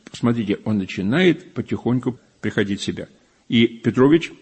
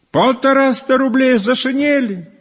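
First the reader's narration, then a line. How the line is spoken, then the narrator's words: Startled cry, normally quiet voice. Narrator (Russian): вскрикнул бедный Акакий Акакий, вскрикнул, может быть, в первый раз отроду, ибо отличался всегда тихостью голоса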